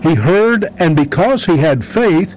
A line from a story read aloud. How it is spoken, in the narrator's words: he cried out